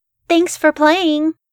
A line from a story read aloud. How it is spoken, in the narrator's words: I blurted out